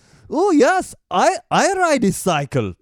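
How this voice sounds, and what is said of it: Mock German accent. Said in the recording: “I was about to do that German accent again ... That's not even German anymore”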